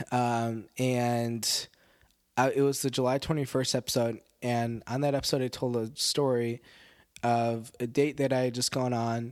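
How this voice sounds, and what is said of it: Strained, fading voice. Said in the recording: “My voice is really starting to go.”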